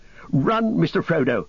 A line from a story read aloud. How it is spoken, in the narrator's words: he cried